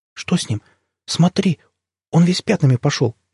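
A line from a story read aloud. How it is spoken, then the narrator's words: Frightened. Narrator (Russian): испуганно сказала мать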